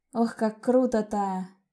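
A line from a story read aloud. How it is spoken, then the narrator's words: Dreamy sigh. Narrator (Russian): Мечтательно вздохнула я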